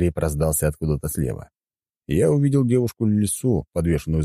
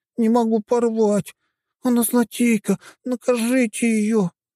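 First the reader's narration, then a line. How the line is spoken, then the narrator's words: Whimpering. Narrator (Russian): хныкала Блэр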